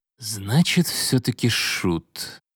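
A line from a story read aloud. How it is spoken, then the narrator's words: Quiet. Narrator (Russian): произнес тихо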